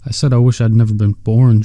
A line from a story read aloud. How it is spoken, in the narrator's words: George repeated firmly